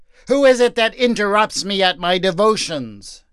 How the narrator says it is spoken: He cried

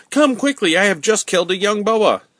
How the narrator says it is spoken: Ernest suddenly cried out

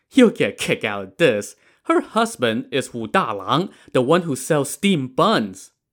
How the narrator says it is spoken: Wang laughed out loud and said

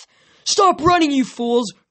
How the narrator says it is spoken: Kronos yelled

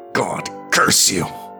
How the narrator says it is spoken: snarled the lady of Jouarie between clenched teeth

